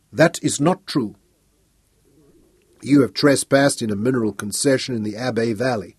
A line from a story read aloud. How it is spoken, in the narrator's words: said Helm